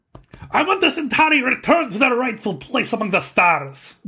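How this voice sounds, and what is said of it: Uncanny impression of a character's weird accent. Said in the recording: “Can you say that with the accent? ... Your Malari impression is uncanny. ... It's a weird accent.”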